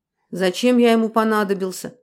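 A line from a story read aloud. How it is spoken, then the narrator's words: Gloomy question. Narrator (Russian): мрачно спросил Дронго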